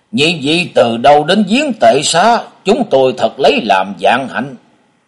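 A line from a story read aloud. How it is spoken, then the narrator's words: Old man's angry voice. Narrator (Vietnamese): Giọng của lão ta giận dữ vang lên trong đêm tối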